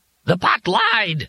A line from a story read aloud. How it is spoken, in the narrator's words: Glimmung shrieked